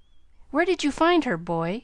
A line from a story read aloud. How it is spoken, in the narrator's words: she repeated sharply